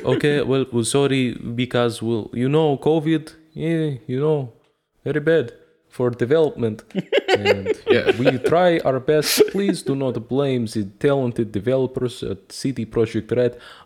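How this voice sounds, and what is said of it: Put-on Russian accent. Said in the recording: “I don't know why I have a Russian accent, even though I am Polish.”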